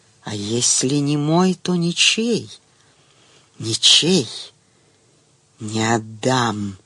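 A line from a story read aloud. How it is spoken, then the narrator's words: Angry, belligerent whisper. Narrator (Russian): шепот сделался злобным, воинственным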